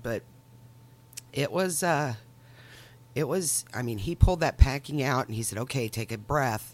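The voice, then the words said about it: Congested, stuffy-nosed voice. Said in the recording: “I have a cold. So I still sound and feel kind of congested.”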